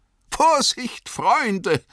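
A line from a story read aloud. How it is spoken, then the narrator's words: Laughing call. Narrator (German): rief Gildor lachend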